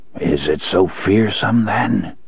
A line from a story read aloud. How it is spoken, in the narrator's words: Court muttered, as if in his sleep